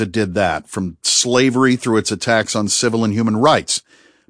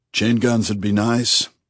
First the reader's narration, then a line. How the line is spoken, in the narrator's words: agreed Bunny, almost wistfully